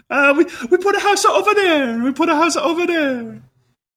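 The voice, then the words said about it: Cartoonish fake Italian chef accent. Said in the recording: “the accent I'm doing is not Italian. ... It's cartoon chef Italian. ... Or waiter”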